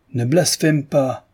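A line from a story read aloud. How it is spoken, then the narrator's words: Shouted. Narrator (French): cria Tikhon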